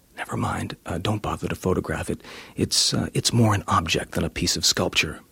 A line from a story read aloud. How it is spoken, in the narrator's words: the publisher came up and whispered in my ear